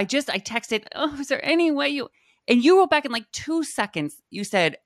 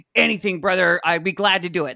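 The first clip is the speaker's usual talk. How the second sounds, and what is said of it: Imitates another person's raspy voice. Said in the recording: “That's my impression of you. ... I like how you get all graspy.”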